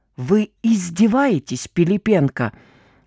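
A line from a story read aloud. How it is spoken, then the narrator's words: Snake-like hiss. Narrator (Russian): Совершенно по-змеиному прошипел майор Владимиров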